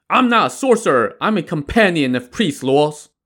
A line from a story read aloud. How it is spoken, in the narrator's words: Li Kui shouted